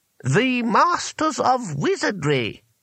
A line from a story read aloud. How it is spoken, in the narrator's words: said the voice haughtily